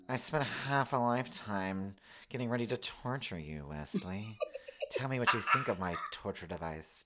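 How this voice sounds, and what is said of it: Imitates another person's voice. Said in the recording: “I'm going to try to do an impersonation of his voice ... Disney villain kind of thing ... sidekick energy”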